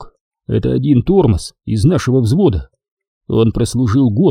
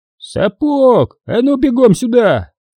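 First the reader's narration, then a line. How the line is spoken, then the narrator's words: Yelled. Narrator (Russian): заорал Хасан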